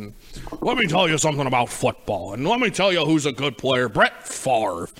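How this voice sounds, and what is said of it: Poor John Madden impression. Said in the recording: “that was not a good impression, by the way. That's not an impression I'm particularly proud of. But a lot of people have their John Madden impressions”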